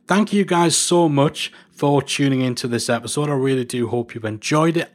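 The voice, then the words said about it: Northern English accent. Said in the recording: “my bizarre Northern English accent”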